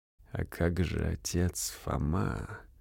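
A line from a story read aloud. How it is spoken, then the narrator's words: Quiet call. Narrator (Russian): негромко окликнул ее брат Роберто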